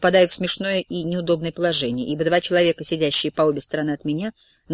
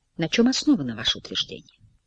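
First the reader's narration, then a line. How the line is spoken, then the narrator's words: Greedy, very quiet question. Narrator (Russian): Он как-то алчно, очень тихо спрашивает у него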